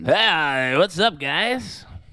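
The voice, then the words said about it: Loud drunk uncle voice. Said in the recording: “slightly louder and a little more drunk ... That was my best drunk uncle impression.”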